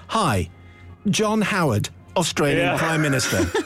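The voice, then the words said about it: Put-on English accent. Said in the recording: “I just make John Howard sound English”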